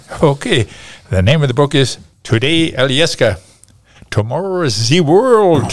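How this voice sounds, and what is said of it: German accent. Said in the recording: “my accent, my German accent.”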